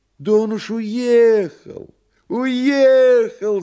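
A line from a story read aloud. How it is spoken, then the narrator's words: Shout. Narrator (Russian): закричал переводчик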